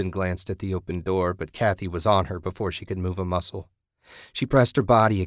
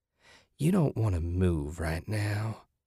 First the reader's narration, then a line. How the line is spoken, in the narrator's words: Kathy whispered